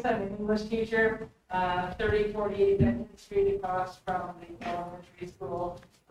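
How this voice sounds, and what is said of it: Teacher voice. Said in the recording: “this is my teacher voice.”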